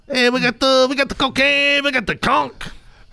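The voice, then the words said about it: Old man voice, Mexican-style accent. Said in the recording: “Why am I giving a kid an old man voice? ... Why is he a Mexican?”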